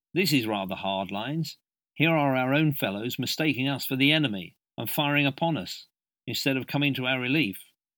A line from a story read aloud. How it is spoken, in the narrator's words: exclaimed